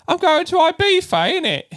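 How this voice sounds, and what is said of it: Mock Cockney accent. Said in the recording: “she'd make fun of the Cockney accent”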